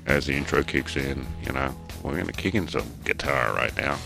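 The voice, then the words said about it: Mock radio DJ voice. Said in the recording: “trying to do the radio voice guy”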